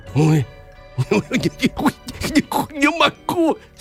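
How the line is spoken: Moaning. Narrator (Russian): стонал Иван

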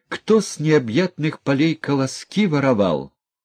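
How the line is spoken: Shrill squeal. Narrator (Russian): Как-то даже взвизгнула тихушница

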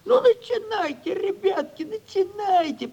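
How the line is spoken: Squeaky voice. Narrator (Russian): пропищал Моргач

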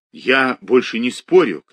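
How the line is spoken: Shout. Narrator (Russian): крикнул Никитин

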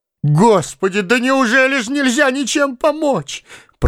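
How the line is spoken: Moaning. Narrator (Russian): простонала Ольга Ивановна

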